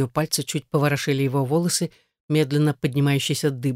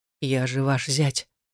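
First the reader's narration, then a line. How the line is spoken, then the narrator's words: Strained whisper. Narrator (Russian): прошептал, с третьей попытки вернув себе власть над голосом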